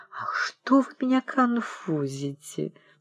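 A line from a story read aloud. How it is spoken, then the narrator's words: Embarrassed, pleading, prim whisper. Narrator (Russian): Вера Александровна краснела до ушей и умоляющим тоном чопорно шептала молоденькой шалуне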